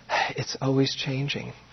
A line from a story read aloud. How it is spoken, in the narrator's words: said, completely innocent and with exasperation, sighed